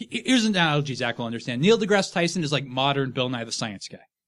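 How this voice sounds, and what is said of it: Usual voice. Nothing is said of it.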